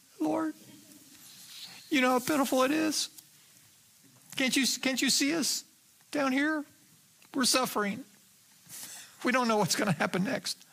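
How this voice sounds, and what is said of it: Whiny pleading voice. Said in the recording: “employs the whiny voice at this point. Have you ever used the whiny voice”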